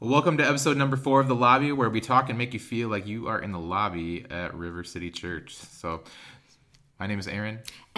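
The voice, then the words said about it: Enthusiastic podcast-host voice. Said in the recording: “That was like a new kind of podcast voice. That was like an enthusiastic podcast voice.”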